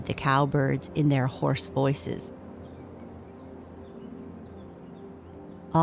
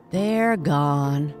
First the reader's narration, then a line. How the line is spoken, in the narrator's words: sighed the groundhog and his wife